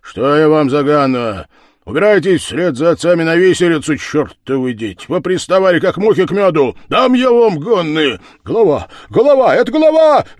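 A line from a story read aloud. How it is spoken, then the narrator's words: Boys shouting together. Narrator (Russian): закричали хлопцы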